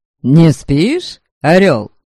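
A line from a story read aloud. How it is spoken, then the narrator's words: Mocking call. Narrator (Russian): насмешливо окрикнул его Вольга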